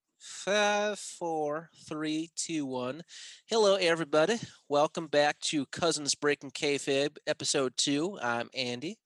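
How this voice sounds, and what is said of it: Poor put-on southern accent. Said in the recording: “I just started doing a southern accent. Probably terrible”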